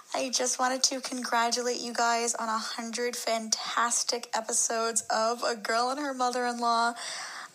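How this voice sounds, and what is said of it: Strong Staten Island accent. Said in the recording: “she's from Staten Island ... she has like the best Staten Island accent.”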